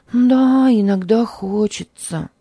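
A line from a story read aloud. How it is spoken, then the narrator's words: Sighing reply. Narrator (Russian): вздохнув, ответила сестра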